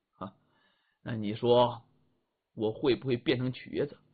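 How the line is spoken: Faint smile. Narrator (Chinese): 李元芳 淡淡一笑

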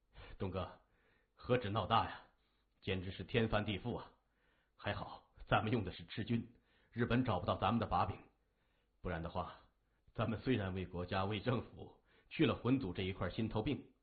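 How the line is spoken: Light laugh. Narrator (Chinese): 三眼轻笑着

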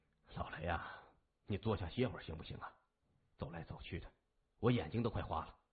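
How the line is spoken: Resigned sigh. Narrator (Chinese): 叹了口气，他无奈地说

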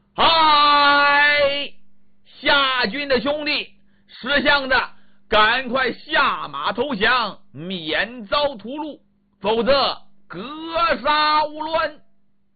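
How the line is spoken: Bellowing from the gut. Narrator (Chinese): 秦叔宝 斗丹田冲着夏军喊上了

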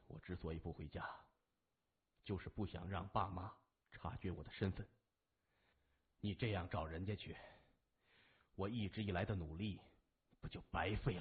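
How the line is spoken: Composed, restraining emotion. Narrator (Chinese): 稳定了一下情绪，暗叹自己过于失态，说

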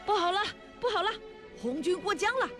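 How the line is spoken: Frightened shouting. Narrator (Chinese): 吓得大叫起来

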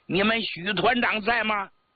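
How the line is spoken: Loud question. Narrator (Chinese): 有人大声问

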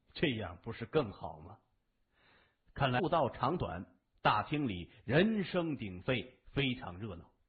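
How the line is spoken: Sinister, cold. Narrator (Chinese): 后者先是一愣，但是露出阴笑，冷声说

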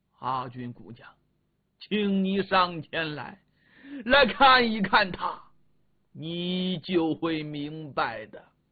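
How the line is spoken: Choked, then emphatic. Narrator (Chinese): 说着哽咽了，赶紧的把这口气往下压了压，又加重语气

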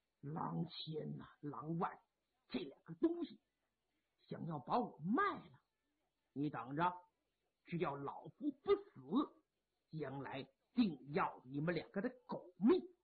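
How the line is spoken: Through gritted teeth. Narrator (Chinese): 潘仁美一咬牙

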